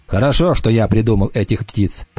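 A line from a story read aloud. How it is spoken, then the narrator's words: Grumbling. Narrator (Russian): проворчал Уртона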